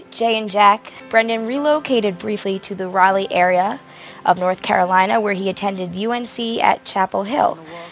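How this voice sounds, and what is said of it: Hoarse, slightly deep voice. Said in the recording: “my voice is a little hoarse. ... a lot of yelling and cheering and singing has made me sound a little bit mannish”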